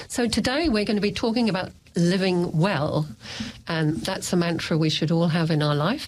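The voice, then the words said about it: Voice not working well. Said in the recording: “my voice is not working very well today”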